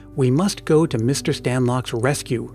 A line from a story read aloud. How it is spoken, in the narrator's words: Ernie replied